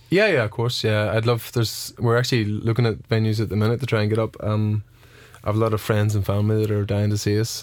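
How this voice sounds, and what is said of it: Northern Irish accent. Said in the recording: “a big Nordy accent”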